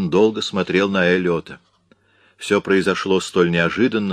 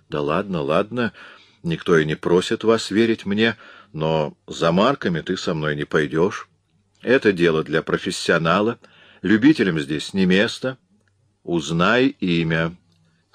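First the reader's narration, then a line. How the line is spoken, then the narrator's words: Calm repetition. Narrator (Russian): спокойно повторил Эллиот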